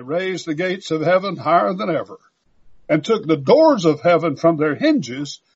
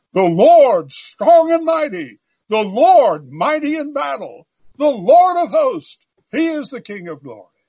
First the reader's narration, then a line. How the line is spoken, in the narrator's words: The company of Christ shouted